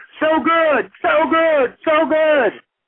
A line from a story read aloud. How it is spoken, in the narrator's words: a stadium full of people all screaming